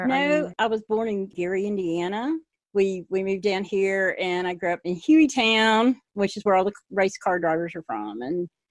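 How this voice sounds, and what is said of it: Pretty thick regional accent. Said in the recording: “I've lived here long enough to acquire a pretty thick accent, I think ... I hear that, yes.”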